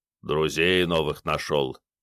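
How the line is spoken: Quiet grumble. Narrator (Russian): тихо пробурчал Снейк

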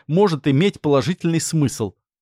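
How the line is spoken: Snort. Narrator (Russian): хмыкнул Макс

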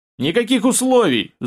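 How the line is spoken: Yell. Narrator (Russian): заорал обкурок

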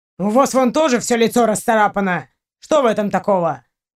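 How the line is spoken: Snapping retort. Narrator (Russian): огрызнулся он

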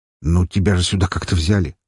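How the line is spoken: Snort. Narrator (Russian): хмыкнул я

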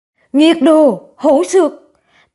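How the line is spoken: Roaring. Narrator (Vietnamese): Lâm phu tử gầm lên

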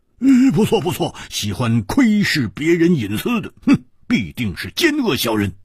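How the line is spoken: Loud. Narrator (Chinese): 蝴蝶花大声说

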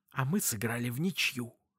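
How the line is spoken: Hissed. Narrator (Russian): в ответ он прошипел

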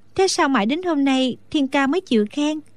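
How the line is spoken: Smiling speech. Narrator (Vietnamese): Đinh Đan mỉm cười nói

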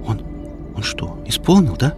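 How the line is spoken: Soft gasp, whisper. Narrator (Russian): Хип тихонько охнула, только прошептала

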